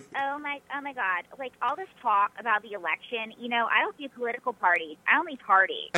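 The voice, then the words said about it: Valley girl character voice. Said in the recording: “a valley girl ... You have the accent and everything?”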